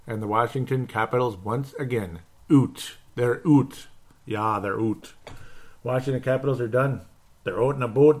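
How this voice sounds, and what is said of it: Imitation of Mike, drawn-out 'oot'. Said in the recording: “I love imitating Mike”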